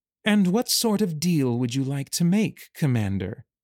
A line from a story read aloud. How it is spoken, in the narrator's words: she purred